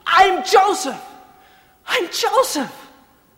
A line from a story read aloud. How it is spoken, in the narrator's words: speaking Hebrew for the first time in their listening, he cried out in flawless Hebrew